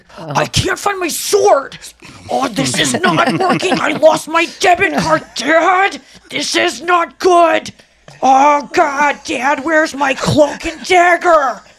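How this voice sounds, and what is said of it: Imitates another person's voice. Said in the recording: “every time someone does an impression of me, it sounds like the guy from Love on the Spectrum season two ... a great impression”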